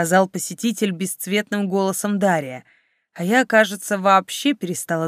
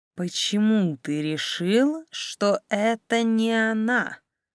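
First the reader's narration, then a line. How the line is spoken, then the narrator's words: Hissing voice. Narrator (Russian): Раздался в ответ голос, точнее, шипение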